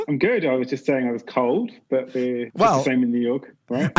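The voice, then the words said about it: British English accent. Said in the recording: “do we detect an accent here ... being British, we kind of know it, the accent gets places”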